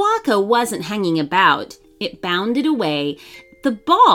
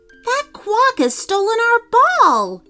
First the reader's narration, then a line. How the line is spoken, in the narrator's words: yelped Lara